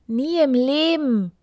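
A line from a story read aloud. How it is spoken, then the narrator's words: Queen calling out. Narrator (German): rief die Königin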